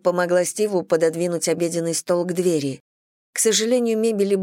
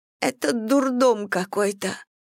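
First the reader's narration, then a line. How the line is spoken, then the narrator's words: Sobbing. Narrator (Russian): всхлипнула она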